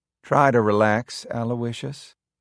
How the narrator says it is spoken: Helen said soothingly

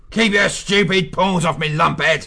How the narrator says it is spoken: He snarled

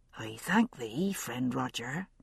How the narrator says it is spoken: husband said softly

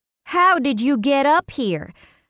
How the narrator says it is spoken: I shouted over the roar of the wind

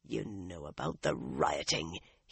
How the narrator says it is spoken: he muttered

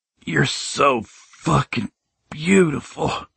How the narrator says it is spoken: I groaned

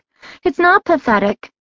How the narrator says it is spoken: she cried out

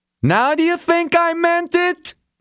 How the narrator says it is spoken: the employer screamed

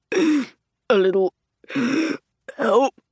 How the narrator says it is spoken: he says through wheezing breaths

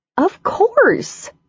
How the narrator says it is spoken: she said indignantly

